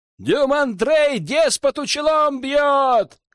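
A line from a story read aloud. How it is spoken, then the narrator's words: Crowd shouting back. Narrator (Russian): кричали в ответ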